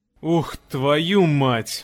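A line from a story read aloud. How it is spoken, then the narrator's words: Breathed out. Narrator (Russian): выдохнул Док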